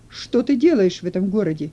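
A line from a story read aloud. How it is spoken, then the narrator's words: Group shouting. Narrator (Russian): закричали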